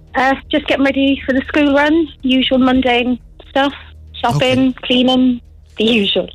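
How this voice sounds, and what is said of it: Blended mixed accent. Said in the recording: “You've got a lovely accent. It's like a blend of something. ... You've got a fully blended accent.”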